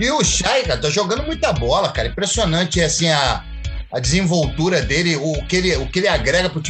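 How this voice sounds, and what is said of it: Usual voice. Nothing is said of it.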